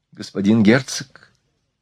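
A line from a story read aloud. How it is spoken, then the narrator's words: Quiet. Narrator (Russian): сказала она тихо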